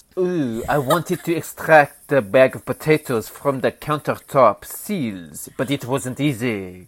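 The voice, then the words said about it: Bad put-on French accent. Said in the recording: “pardon my horrible French accent.”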